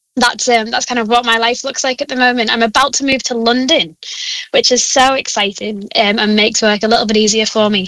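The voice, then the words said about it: Northern English accent. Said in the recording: “with a northern accent, they won't understand me ... not sounding like Stephen Gerrard”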